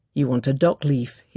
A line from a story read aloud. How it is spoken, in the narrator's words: he said